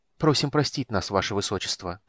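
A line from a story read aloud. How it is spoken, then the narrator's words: Hurried speech. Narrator (Russian): торопливо произнес Рейслин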